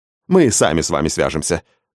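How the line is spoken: Quick speech. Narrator (Russian): быстро сказал менеджер

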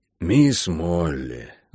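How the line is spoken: Sighing. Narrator (Russian): вздохнул хозяин

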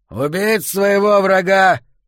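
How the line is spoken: Shouted. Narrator (Russian): выкрикнул Аарон

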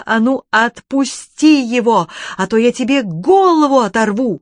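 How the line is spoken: Shouting while running. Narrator (Russian): Софья неслась следом и кричала

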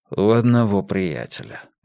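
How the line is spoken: Soft reply. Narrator (Russian): мягко ответил Томас

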